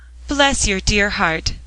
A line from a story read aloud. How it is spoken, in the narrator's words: cried Mother Pepper